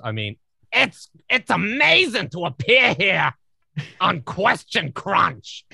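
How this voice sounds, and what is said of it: Loud throaty Gilbert Gottfried impression. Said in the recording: “with Gilbert Gottfried, it's all about the back of the throat and then adding volume ... which isn't even that great a Gottfried impression”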